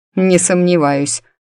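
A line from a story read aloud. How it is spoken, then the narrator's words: Skeptical snort. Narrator (Russian): хмыкнул Максимус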